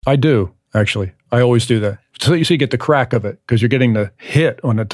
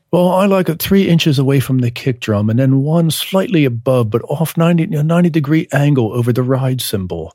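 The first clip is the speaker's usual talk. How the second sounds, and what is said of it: Imitated British accent. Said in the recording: “some guy probably with a British accent”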